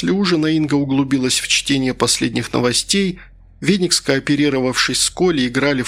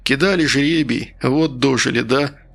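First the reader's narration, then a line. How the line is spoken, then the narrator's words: Sighing. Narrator (Russian): вздохнул Старлей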